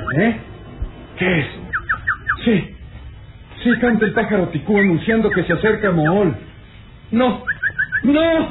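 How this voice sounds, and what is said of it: Anguished, terrified shouting. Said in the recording (Spanish): “aquellos gritos, mitad de angustia y mitad de terror”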